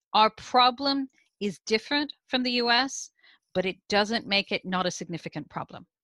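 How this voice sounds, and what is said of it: American accent. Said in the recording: “you can hear from my accent. I'm originally from the US, I now live in the UK.”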